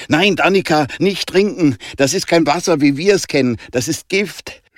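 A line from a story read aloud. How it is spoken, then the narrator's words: Shout. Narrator (German): schrie Jonah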